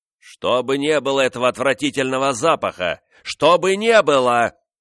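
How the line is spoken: Shouting. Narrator (Russian): кричал король

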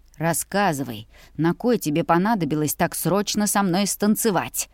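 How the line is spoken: Hissed into ear. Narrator (Russian): Прошипел мне на ухо

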